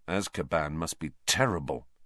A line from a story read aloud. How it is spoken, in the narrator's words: Harry muttered